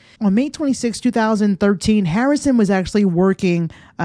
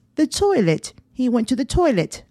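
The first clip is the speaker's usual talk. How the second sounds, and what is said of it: Bad imitation British accent. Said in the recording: “as my British listeners say ... That was a really bad accent.”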